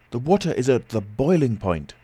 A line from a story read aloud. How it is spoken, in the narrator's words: I cried